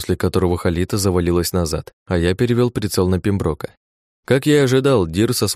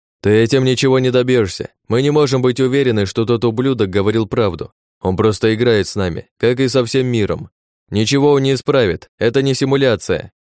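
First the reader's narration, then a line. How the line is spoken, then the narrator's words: Frantic tearful screaming. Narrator (Russian): Парень истошно орал со слезами на глазах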